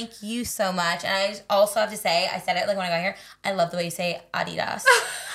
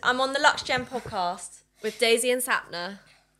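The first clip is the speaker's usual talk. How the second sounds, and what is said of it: Put-on British accent. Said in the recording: “Do your best British accent. ... Yes, that's so good.”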